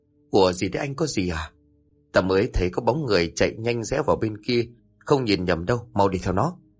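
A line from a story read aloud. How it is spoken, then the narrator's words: Whispered. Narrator (Vietnamese): Một thằng liền nói khẽ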